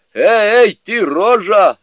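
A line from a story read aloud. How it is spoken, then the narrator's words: Shouted. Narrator (Russian): закричал Джубадзе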